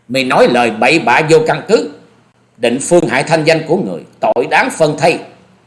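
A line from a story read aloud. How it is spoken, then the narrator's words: Loud shout. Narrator (Vietnamese): Nàng cất tiếng quát to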